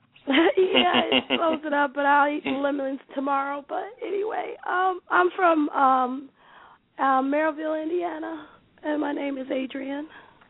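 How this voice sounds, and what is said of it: Hoarse, strained voice. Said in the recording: “I'm a little hoarse. I'm so sorry. I lost my voice earlier. ... Oh, you lost your voice. That throat chakra is closed up.”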